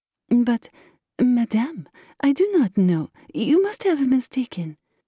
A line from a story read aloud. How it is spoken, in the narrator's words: astonished to be familiarly addressed by this plain goodwife, stammered